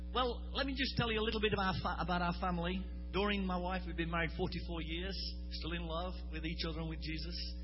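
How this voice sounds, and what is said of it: British English accent. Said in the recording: “I hope you understand the Queen's English ... People say, I love your accent. I said, this isn't an accent, this is the original.”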